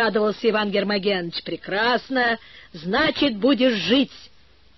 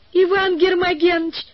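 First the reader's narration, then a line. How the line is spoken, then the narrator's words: Shout. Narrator (Russian): закричала Валя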